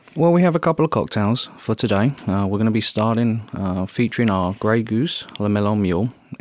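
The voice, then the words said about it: Charming accent, good radio voice. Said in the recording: “you've got the best voice in the world for radio, the most charming accent in the world”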